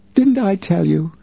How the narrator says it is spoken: she cried

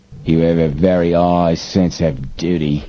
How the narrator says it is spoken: sneered Snapman

